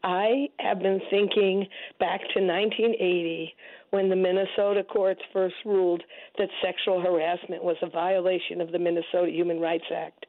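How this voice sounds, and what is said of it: Hoarse, strained voice. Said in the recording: “please forgive my voice. I'm coping with some laryngitis.”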